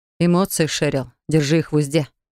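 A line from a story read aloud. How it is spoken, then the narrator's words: Icy rebuke. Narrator (Russian): осадил меня ледяным тоном преподаватель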